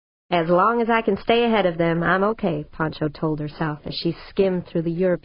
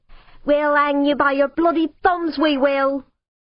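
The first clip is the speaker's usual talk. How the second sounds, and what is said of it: Working-class English accent. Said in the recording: “she lapsed back to her native working-class accent.”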